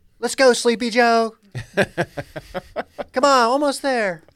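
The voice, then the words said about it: Fitness instructor voice. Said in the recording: “my Peloton instructor impression”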